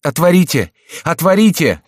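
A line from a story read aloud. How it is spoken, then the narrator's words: Shout. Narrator (Russian): кричал он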